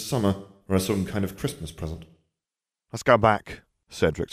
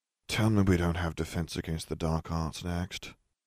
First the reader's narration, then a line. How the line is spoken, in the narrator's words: he muttered to Nev